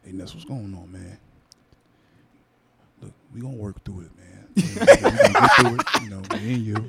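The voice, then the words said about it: Exaggerated deep voice imitating someone. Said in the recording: “He gave the real deep voice.”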